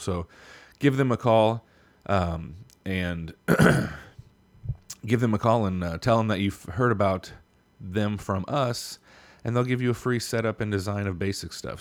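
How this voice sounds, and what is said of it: Strained, worn-out voice. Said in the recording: “my voice is all messed up because we went so hard in this episode last night laughing and giggling”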